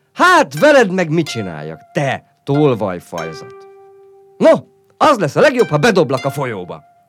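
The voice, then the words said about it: Firm, loud threatening voice. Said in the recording (Hungarian): “Határozott fönhangon, hogy még jobban ráijesszen”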